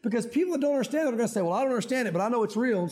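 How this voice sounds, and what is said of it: Country Southern accent. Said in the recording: “I don't know why I'm talking so country today. ... I grew up here.”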